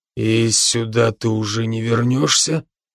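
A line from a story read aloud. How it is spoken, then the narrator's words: Quiet question. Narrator (Russian): тихо спросил Брок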